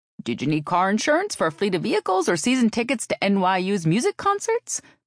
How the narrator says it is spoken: Margaret asked cheerfully

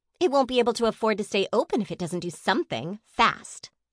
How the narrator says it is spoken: Carrie snapped

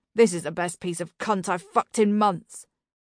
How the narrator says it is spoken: he grunted

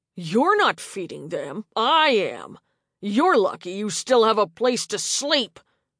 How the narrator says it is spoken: Craig snarled

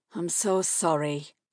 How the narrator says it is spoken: she murmured

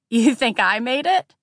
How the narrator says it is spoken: said, almost laughing

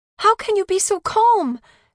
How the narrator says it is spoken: she shouted at her Ima, exasperated

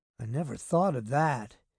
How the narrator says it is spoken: Dave said in a troubled voice

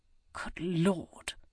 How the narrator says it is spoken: he muttered beneath his breath

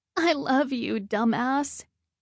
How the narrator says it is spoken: she sobs

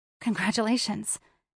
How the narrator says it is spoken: whispered

